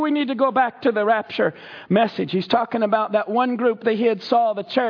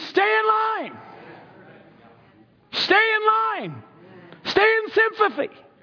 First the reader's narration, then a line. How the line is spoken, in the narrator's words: He was screaming